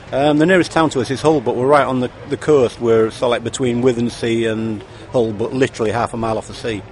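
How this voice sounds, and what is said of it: Yorkshire accent. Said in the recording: “Yorkshire accent, I take? ... Oh, definitely.”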